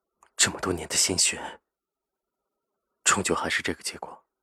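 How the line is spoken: Sighing. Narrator (Chinese): 叹了口气，说着

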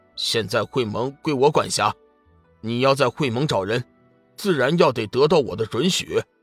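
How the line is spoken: Sneering, cold. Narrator (Chinese): 哼， 费良玉冷笑一声

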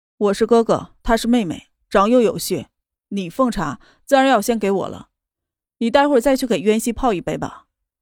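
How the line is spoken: Flat indifferent tone. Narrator (Chinese): 淡淡的道

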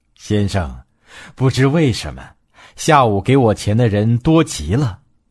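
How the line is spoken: Old man, smiling. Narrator (Chinese): 盲老人笑着回答说

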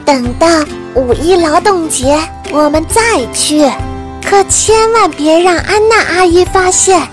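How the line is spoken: Whispering. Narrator (Chinese): 娜拉……小声地说道

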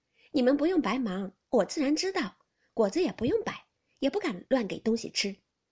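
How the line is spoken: Smiling. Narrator (Chinese): 袭人笑道

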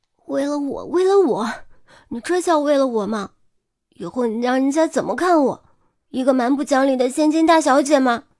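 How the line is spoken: Raised, tearful voice. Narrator (Chinese): 嗓音提高，带着哭腔

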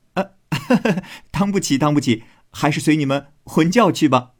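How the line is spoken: Laughing. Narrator (Chinese): 宝玉笑道

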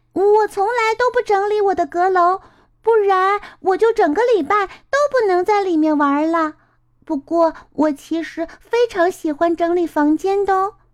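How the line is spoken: Happy exclaiming. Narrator (Chinese): 莫娜高兴的叫着

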